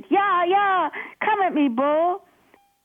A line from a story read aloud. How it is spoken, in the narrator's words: He shouted